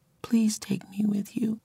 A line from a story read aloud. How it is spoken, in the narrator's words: whispered